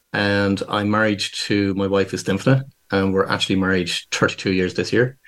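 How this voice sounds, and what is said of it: Irish Dublin accent. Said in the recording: “You've got a fantastic accent ... born and raised in Dublin in Ireland. So people can probably gather from the accent, it's slightly different.”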